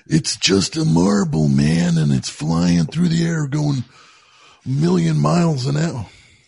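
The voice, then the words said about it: Imitates another person's voice. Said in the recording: “My George Carlin.”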